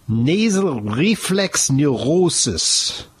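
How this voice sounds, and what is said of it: Mock German accent. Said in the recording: “I'm trying to say it with a German accent”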